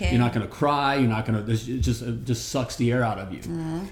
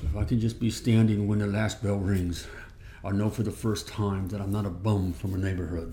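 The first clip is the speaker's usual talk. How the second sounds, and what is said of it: A bad impression of a film character. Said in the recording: “That was really bad. ... do your better impression ... your Rocky story”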